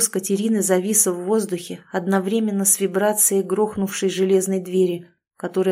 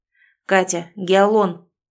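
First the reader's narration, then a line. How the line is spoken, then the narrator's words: Barked. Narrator (Russian): рявкнул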